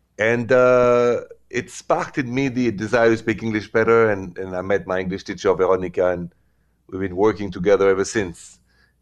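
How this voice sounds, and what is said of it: Heavy French accent. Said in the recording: “that heavy French accent”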